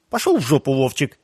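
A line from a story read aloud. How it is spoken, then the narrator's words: Snapping retort. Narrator (Russian): огрызнулся Дима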